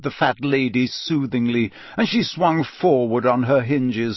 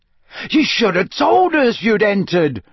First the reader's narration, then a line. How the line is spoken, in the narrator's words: bellowed Fred